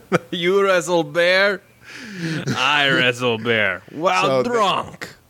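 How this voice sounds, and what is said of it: Exaggerated mock Russian accent. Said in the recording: “hilariously racist accent ... Mikhail, the Russian”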